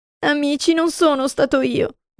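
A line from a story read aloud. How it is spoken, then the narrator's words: Sobbing. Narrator (Italian): disse tra i singhiozzi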